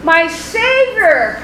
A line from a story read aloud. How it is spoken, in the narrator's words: cried Melchior